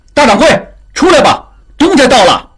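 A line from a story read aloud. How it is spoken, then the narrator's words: Shouting inward. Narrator (Chinese): 马寻朝里面喊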